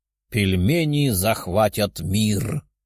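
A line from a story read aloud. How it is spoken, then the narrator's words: Chuckling man. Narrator (Russian): хохотнул мужчина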